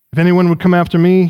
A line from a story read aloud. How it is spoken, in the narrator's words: he says